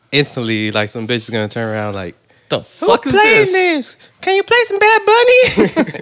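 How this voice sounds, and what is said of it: Mocking put-on partygoer voice. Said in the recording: “why did I do that voice?”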